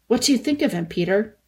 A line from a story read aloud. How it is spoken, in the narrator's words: Edmund asked anxiously